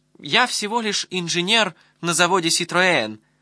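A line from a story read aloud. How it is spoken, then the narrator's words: Timid, defensive. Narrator (Russian): робко оправдывался Гаспар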